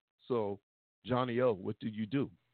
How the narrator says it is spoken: Charmaine asked

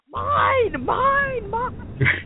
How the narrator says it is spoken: hollering at them

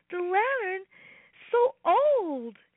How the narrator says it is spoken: cried Robbie

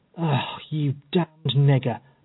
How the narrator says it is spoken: muttered Epps in a surly, malicious tone of voice

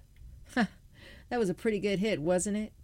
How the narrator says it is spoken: Timmy laughed

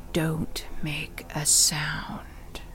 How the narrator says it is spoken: a gruff voice whispered

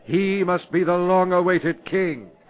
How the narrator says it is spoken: all cried out

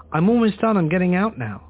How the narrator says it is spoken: I had already begun to shout

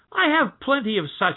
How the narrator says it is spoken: he said scornfully

